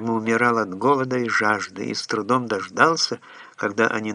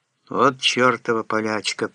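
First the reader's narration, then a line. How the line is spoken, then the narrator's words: Mutter. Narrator (Russian): пробормотал я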